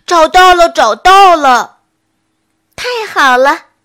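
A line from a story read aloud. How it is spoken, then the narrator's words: Startled loud shout. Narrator (Chinese): 笨熊一愣，大声喊了起来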